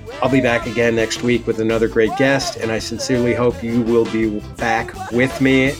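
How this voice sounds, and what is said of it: Midwestern American twang. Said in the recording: “my Midwestern twang”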